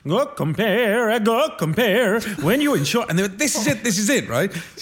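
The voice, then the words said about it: Put-on Italian accent, singing. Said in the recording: “can you do a Welsh accent? ... oh, what about Italian?”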